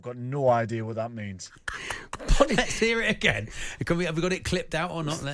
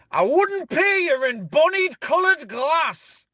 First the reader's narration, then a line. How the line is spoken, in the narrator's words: an old boy near us who shouts every game